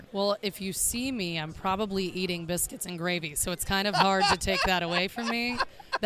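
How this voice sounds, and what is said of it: Southern American accent. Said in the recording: “let's teach them how to do a Midwestern accent ... you're Southern and you're not apologizing for being Southern”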